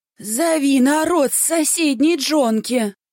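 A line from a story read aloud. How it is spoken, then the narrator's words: Hoarse wheeze, stout woman. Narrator (Russian): прохрипела толстуха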